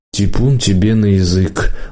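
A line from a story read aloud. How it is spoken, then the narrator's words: Tired mother. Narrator (Russian): устало сказала мама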